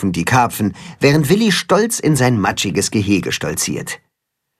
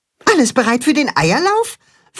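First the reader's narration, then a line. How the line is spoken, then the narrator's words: Excited question. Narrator (German): fragt Max aufgeregt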